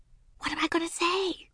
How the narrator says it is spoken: she whispered

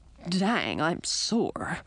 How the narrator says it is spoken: grumbled

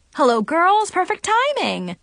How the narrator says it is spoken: Trevor exclaimed

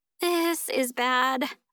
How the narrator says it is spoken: moan

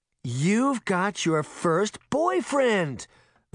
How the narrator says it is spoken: Veronica exclaimed

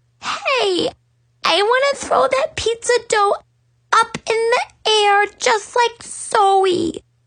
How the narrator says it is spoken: squealed

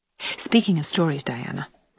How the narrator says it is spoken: remarked Anne in a significant, confidential tone

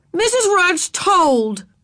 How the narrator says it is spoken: shouted

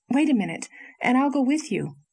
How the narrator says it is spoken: exclaimed Anne

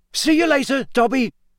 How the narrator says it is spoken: Harry shouted

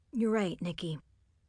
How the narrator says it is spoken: Brandon said solemnly

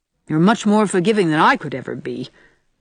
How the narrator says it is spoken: Anne said rather crossly

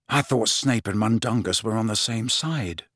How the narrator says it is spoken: muttered Harry to Ron and Hermione

